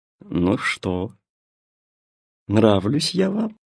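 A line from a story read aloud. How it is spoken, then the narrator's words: Melodious voice. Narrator (Russian): спросила фея мелодичным голосом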